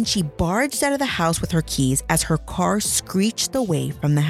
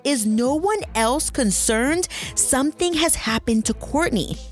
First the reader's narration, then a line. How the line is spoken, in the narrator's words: yelled